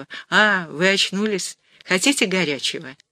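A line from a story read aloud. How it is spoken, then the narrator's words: Young nurse's gentle voice. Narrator (Russian): молоденькая грузинка-сестра и сказала ласково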